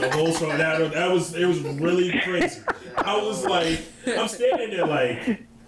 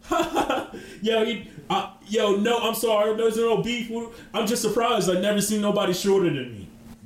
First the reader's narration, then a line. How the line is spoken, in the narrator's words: started laughing, and he was like